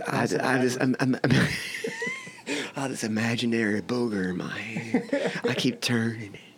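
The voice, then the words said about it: Terrible impression of a celebrity's voice. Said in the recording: “This is like a terrible Matthew McConaughey impression.”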